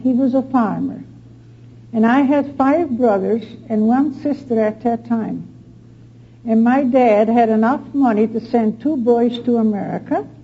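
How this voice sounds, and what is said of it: Dutch accent. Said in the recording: “I was born in Holland. That's where my accent comes from.”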